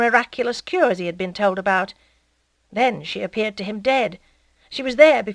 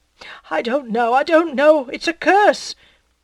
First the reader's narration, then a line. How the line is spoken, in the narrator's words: The other replied, sobbing